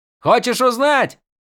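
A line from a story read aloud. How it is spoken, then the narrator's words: Barked from behind. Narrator (Russian): рявкнул Мош позади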